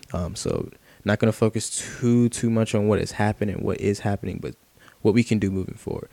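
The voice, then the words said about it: Tired, congested voice. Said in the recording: “I'm sorry about my voice right now. I'm honestly exhausted ... my allergies are killing me too.”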